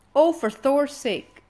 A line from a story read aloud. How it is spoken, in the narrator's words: snapped Hiccup